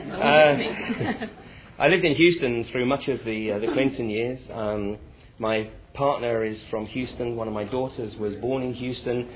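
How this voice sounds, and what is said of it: English accent with American influence. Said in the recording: “Spent a bunch of time living in the US, thus my accent is not pure English”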